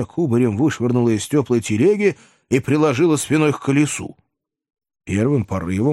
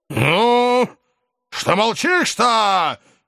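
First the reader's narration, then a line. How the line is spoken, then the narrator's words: Menacing tsar. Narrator (Russian): грозно возвысился надо мною царь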